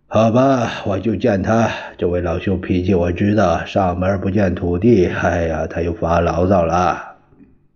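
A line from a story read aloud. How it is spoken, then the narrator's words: Sighing. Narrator (Chinese): 他叹了一口气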